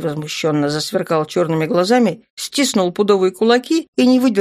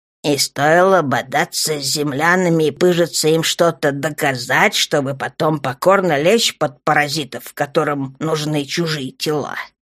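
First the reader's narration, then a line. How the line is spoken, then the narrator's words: Calm mocking drawl, old man. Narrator (Russian): насмешливо и спокойно протянул старый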